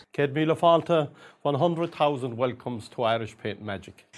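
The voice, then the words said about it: Thick rural Irish County Cork accent. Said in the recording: “Old misty eyes, kind of lovely sort of smooth, yes, delivery ... he's got a really thick rural accent ... it's completely clear what he's saying, but it's very thick ... County Cork”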